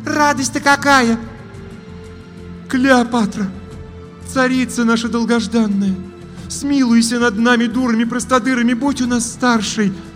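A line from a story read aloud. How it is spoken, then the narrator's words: Desperate pleading. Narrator (Russian): Взмолилась третья ведьма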